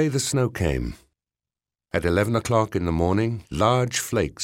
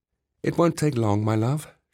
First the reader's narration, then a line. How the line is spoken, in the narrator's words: she said